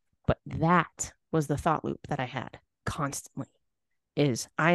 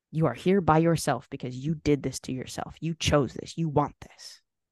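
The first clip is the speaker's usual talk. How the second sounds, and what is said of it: Malicious, contemptuous tone. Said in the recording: “you can just hear that maliciousness in my tone of voice”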